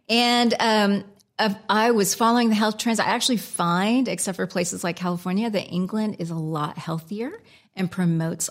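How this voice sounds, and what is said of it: American accent. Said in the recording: “my American accent.”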